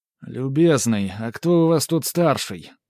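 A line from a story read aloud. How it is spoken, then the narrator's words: Drunken drawl. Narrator (Russian): протянул Геннадий нетрезвым голосом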